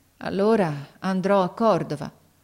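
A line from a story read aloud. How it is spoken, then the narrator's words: Sighing, resigned boy. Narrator (Italian): Il ragazzo mise un sospiro, poi disse con rassegnazione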